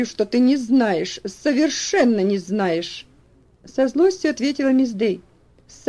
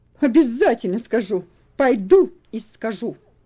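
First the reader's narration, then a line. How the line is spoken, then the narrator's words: Angry retort. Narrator (Russian): Сердито возразила та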